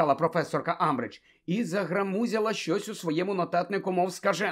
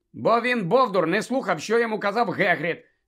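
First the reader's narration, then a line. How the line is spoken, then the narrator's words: Angry interjection. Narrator (Ukrainian): сердито втрутився Гаррі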